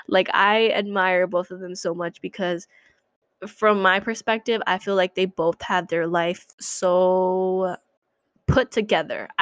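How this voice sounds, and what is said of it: Emotional, choked-up voice. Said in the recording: “oh my god, I'm getting emotional.”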